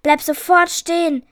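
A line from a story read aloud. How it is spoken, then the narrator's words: Furious roar into night. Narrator (German): brüllte sie wütend in die schwarze Nacht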